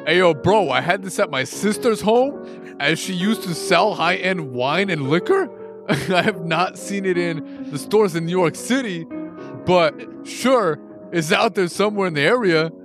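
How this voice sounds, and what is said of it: Over-the-top put-on New York accent. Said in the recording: “Is that your New York City accent? ... That's pretty good, actually. ... I do a better New York accent than you do. ... yours is over the top. A little bit over the top.”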